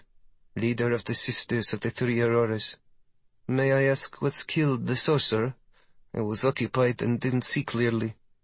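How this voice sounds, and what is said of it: Charming put-on accent. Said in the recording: “the blonde woman says with a charming accent.”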